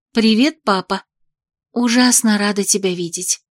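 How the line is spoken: Whispered greeting. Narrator (Russian): поздоровалась шепотом

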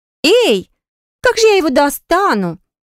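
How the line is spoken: Shrill shriek. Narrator (Russian): взвизгнула девица

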